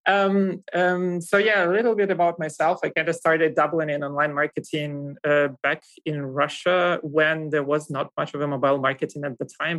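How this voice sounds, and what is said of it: Russian accent. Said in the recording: “I come from Russia. You kind of might hear that from my accent”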